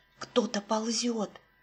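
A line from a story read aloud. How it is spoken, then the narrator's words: Whisper. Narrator (Russian): шепнул Сережа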